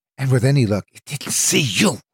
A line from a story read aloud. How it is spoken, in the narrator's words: she hissed